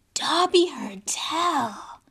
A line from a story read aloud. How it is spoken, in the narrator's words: he said hoarsely